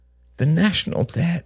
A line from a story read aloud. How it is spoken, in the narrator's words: murmured Shane miserably